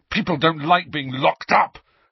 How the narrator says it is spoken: Harry said furiously

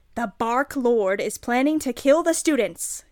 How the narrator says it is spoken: yelled Cornelia Fudge

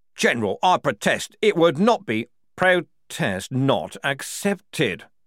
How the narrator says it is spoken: Froc snapped

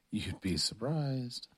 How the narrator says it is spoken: Chris mumbled

